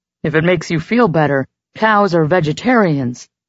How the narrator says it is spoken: Chet called up cheerfully

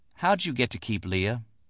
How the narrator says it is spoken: Liddell asked quietly

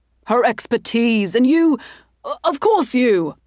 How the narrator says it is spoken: he sputtered

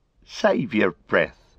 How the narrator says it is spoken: laughed Merry

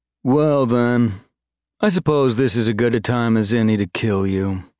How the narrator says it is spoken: Tartet said lazily

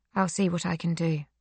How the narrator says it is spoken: Silke says in a flat voice, defeated

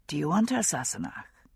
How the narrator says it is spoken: he asked softly

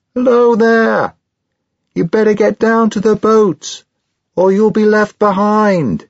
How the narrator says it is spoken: I called out to him

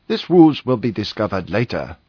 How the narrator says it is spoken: he cheerfully explained

